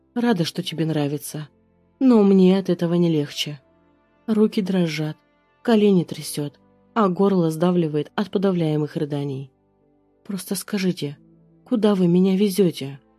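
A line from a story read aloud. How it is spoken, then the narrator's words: Trembling plea. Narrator (Russian): Прошу дрожащим голосом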